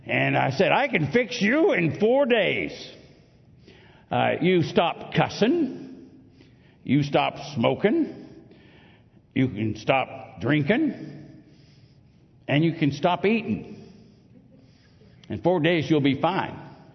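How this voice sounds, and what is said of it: Mark Twain impression. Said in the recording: “try to do my Mark Twain voice here”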